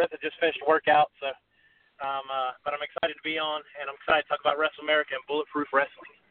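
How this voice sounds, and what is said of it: Slightly out of breath. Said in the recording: “forgive me for being a little bit out of breath.”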